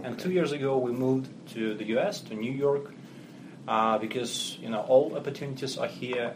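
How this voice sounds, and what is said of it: Russian-accented English. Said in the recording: “as you can hear from my accent, I'm not native ... originally I'm Russian”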